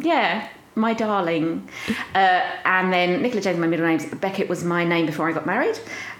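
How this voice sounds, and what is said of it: Southern English accent. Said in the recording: “you are like the most South voice I've ever spoken to”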